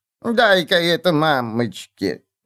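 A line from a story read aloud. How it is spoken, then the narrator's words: Sweet old woman's drawl. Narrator (Russian): милым старческим голоском протянула она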